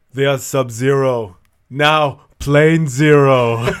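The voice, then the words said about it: Imitates another person's voice. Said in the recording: “try my Arnold voice”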